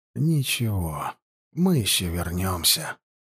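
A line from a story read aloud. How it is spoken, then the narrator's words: Whisper. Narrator (Russian): прошептал егерский капитан-поручик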